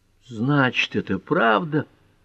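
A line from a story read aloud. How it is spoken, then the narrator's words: Moaning. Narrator (Russian): простонала Пэт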